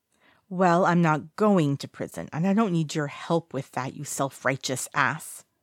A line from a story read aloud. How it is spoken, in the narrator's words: he hisses